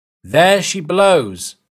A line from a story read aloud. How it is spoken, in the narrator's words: the lookout shouted